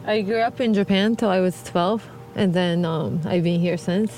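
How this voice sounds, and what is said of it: Strong accent. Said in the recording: “you still have a really strong accent compared to a lot of people who immigrate”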